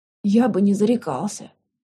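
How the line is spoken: Hoarse, strained. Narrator (Russian): хрипло выдавил друг

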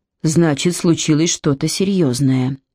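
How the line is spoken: Deep sigh, concluding. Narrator (Russian): глубоко вздохнув, заключила Эми

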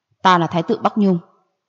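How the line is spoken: Angry. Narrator (Vietnamese): Gia Luật Hoàng tức giận mà nói

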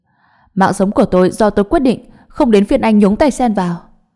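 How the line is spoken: Angry shout. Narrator (Vietnamese): An Hạ tức giận quát lên

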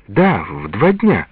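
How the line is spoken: Happy reply. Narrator (Russian): радостно ответила Лиза

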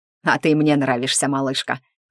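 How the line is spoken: Amused snort, spirit. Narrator (Russian): хмыкнул дух

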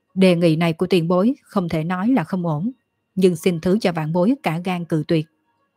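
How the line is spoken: Surprised loud laughter. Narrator (Vietnamese): Dương Khai lộ ra kinh ngạc, cười to

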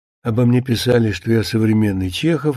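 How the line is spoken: Speaking under breath. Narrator (Russian): говорил Мыльников вполголоса

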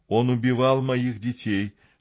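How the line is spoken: Plain. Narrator (Russian): ответила она

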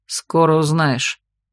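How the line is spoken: Grim promise. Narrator (Russian): мрачно пообещал сидящий рядом с Терри человек

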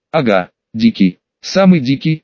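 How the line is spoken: Serious, unironic tone. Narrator (Russian): без иронии серьезным тоном произнес он

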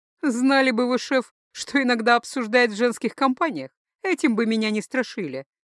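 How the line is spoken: Laughing. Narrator (Russian): рассмеялась Лакни

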